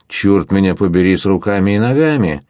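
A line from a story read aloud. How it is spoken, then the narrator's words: Cheerful loud exclamation. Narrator (Russian): весело вскричал флебустьер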